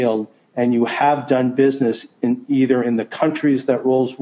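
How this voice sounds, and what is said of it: Usual voice. Nothing is said of it.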